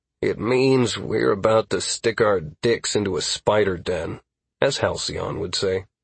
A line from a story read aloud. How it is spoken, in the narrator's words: I replied with a sigh